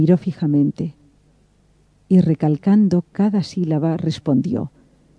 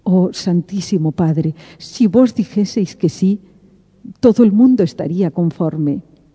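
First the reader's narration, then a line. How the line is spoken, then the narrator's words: Pleading voice. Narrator (Spanish): dije con voz suplicante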